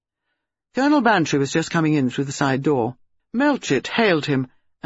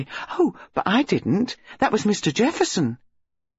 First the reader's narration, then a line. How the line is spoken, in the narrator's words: Josie said eagerly